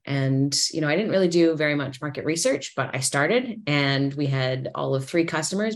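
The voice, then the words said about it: Canadian accent. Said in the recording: “You probably hear that I sound Canadian. ... although I sound Canadian”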